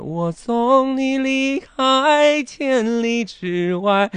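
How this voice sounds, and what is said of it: Pinched, squeezed singing voice imitation. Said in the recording (Chinese): “你这不行，你这夹。”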